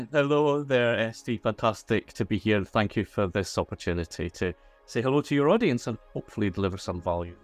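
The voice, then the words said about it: Scottish accent. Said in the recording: “that Scottish accent of yours”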